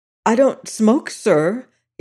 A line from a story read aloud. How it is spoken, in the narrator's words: stammered in answer to that managerial look of accusation